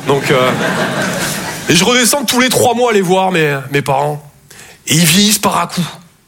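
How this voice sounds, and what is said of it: Southern French Toulouse accent. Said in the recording (French): “Je viens de Toulouse à la base. Ouais, ça s'entend un peu”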